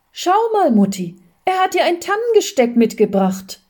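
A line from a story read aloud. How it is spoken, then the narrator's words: Calling out. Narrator (German): rief schon Kathi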